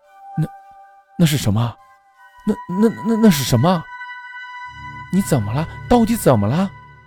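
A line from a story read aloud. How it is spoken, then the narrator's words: Anxious question. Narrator (Chinese): 妻子急切地问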